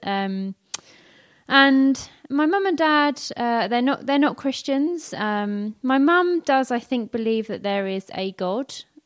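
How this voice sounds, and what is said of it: North London accent, dropped Ts and Hs. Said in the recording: “I grew up in North London, which some of you might be able to tell from some of my accent occasionally. I don't pronounce my T and H's”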